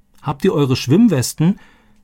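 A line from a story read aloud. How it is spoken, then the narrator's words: Calling after them. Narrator (German): rief Roberto ihnen nach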